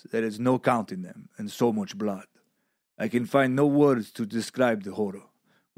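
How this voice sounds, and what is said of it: Exaggerated put-on Russian accent. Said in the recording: “impromptu Russian accent ... Drago in fucking the Rocky franchise ... probably not even uh, accurate at all ... one of your better ones”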